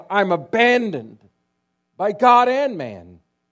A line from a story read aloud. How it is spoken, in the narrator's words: at Voltaire's death, he cried out